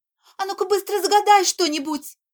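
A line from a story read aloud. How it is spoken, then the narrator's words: Tearful pleading. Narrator (Russian): взмолилась фея, заливаясь слезами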